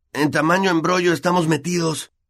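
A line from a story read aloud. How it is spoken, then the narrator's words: Hoarse voice. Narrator (Spanish): dijo con voz ronca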